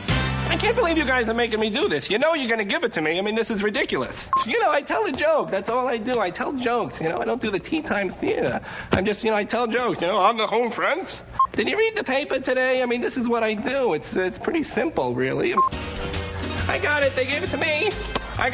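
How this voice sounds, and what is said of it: Jay Leno impression. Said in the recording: “his impression of Jay Leno”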